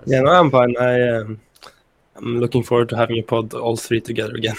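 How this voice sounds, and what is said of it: Strained, failing voice. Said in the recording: “My voice just like went now, so I'll just drink some water”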